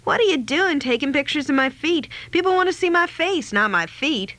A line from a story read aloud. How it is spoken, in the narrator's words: she snapped